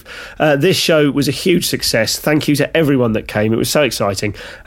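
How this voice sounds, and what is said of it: Slightly scratchy, hoarse voice. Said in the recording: “my voice is a little bit scratchy. I'm afraid I'm quite ill at the moment”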